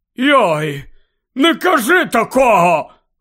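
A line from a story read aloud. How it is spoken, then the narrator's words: Rough shout. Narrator (Ukrainian): грубо крикнув Гегрід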